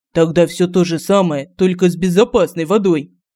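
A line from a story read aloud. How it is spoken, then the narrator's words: Growl. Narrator (Russian): зарычал Семен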